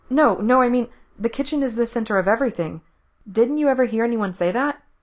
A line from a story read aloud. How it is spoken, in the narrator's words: Gerard adds quickly